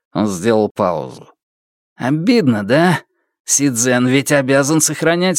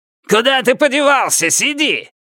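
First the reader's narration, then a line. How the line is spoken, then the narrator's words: Shout. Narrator (Russian): наконец выкрикнул он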